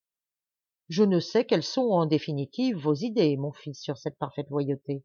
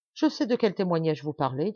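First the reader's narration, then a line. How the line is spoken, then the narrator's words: Plain. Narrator (French): dit mon père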